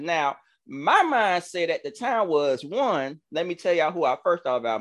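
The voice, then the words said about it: Southern country Georgia accent. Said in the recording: “excuse my country accent, y'all. I'm, I'm, I'm from Georgia”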